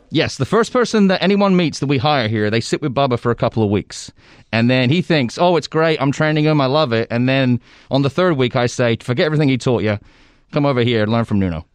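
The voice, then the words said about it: Speaker with a noticeable accent. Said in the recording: “how nice is it to hear ... voice again? Right, everybody loves the accent, even through the mask”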